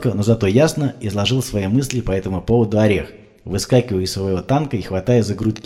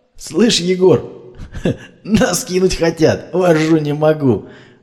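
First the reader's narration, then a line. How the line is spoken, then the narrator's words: Loud guffawing laughter. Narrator (Russian): Громко смеясь заржал Орех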